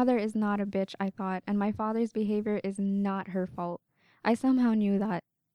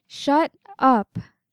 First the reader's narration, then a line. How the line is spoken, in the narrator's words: I said loudly